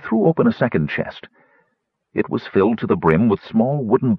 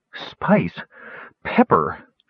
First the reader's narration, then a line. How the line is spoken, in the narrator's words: wheezed